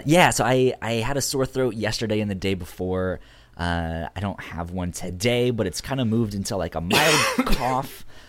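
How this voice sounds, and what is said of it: Raspy, deep, sick-sounding voice. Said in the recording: “I've been sick this past week ... my voice is a little bit raspy ... Yeah, I can hear it. You got that sexy Barry White thing going on.”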